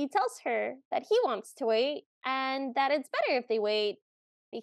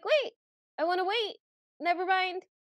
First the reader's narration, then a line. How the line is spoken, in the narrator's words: yelps, and she's like